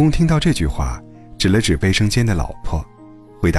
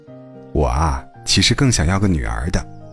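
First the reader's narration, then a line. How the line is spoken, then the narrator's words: Wistful sigh. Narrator (Chinese): 向自己的老公感叹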